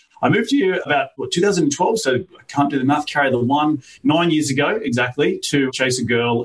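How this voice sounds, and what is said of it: Australian accent. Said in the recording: “accent, right? All the way from down under. ... I'm from Australia.”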